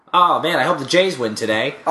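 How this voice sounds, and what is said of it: Nasally impression of a co-host. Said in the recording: “my Evan impression ... I'm a little more nasally than you ... nasally. Yeah, it's like that.”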